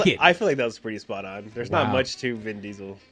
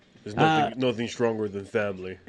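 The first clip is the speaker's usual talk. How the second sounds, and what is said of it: Poor impression of a movie character. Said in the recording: “That's a really bad impression of a fucking John Toretto.”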